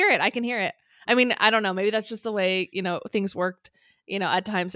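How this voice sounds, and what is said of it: Usual voice. Nothing is said of it.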